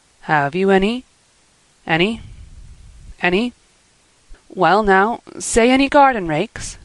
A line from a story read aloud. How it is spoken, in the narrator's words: stammered Matthew